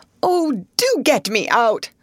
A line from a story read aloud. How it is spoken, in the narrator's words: cried the unfortunate Mr